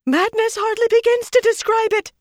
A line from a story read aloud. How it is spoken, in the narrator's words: Faisella shouted